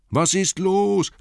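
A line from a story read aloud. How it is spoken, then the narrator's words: Called out. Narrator (German): rief Bilbo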